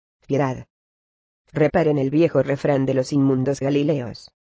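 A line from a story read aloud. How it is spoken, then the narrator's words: Desperate, dry voice. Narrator (Spanish): desesperado, respondió con voz seca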